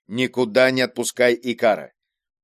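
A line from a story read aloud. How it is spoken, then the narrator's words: Stern order. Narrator (Russian): строго приказав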